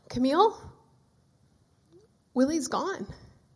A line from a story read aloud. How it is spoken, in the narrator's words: My dad answered, and his voice broken, shaking